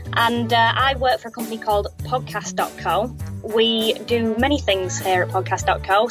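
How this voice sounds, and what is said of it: Manchester English accent. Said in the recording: “I'm based in Manchester, United Kingdom. You can probably tell that from the accent.”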